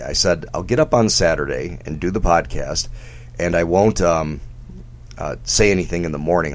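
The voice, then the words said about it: Hoarse, strained voice. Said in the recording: “my voice is shot”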